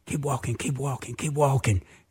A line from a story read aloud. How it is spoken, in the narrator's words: all of a sudden I whispered